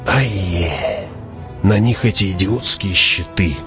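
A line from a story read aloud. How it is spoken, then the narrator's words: Hiss close to ear. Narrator (Russian): прошипел Фриман над ухом Хавата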